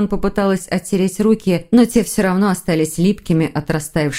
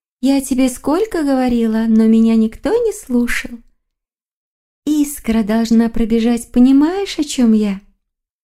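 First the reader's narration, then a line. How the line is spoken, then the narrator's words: Confused sigh. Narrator (Russian): Маргарита вздохнула в растерянности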